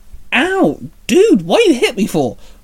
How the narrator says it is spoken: Luca barked

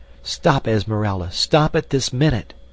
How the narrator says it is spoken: she cried

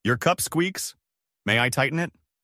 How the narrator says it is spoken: said

